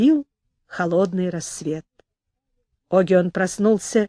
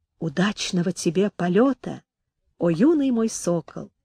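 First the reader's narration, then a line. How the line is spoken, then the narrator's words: Very quiet. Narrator (Russian): Огион сказал, но так тихо, что Гед услышать не мог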